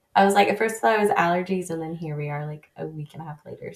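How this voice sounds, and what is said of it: Voice sounds off from a cold. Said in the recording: “I have like a slight cold that is just lingering forever. So if I sound drastically different, that is why. ... that's why my voice is weird.”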